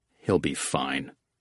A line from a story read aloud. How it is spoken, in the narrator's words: Oates muttered